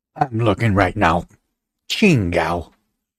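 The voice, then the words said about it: Imitates another person's voice. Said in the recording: “that was the George Lopez uh, impersonate, impersonate, or how do you say? Impersonation.”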